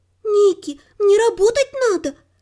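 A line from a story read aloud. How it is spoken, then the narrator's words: Pleading. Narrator (Russian): наконец взмолилась горничная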